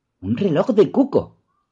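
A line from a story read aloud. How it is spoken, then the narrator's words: Exclaimed. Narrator (Spanish): exclamó Doris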